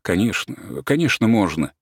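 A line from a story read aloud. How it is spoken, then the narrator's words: Flustered, embarrassed mutter. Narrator (Russian): Я растерялся, смущенно пробормотал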